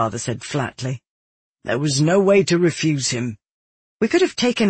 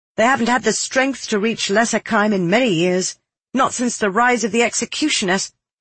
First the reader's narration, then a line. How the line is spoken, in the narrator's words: I snapped